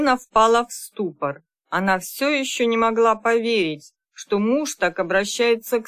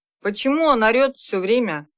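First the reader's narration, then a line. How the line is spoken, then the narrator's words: Displeased husband's question. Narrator (Russian): Недовольным голосом спросил ее супруг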